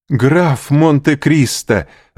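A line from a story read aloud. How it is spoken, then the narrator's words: Exclamation. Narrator (Russian): воскликнул Морель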